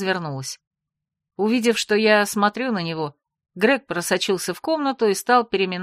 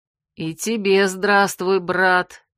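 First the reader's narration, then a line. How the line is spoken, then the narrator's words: Repeating a greeting. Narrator (Russian): Повторила я его приветствие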